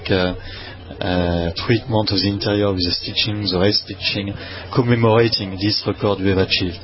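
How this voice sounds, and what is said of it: Noticeable foreign accent. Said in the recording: “you start to get used to my accent”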